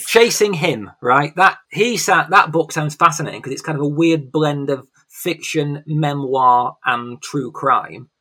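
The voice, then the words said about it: English accent. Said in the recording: “I can't pronounce that word in an English accent. It sounds ridiculous.”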